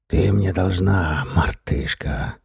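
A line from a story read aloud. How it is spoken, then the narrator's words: Hiss in ear. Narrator (Russian): прошипел он ей в ухо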